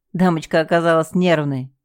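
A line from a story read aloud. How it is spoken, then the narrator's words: Smirking grunt. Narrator (Russian): хмыкнул Валера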